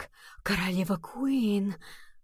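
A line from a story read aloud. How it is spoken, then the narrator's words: Murmur. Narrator (Russian): пробормотал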